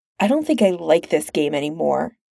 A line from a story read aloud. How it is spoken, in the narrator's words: she grumbles, stalling for time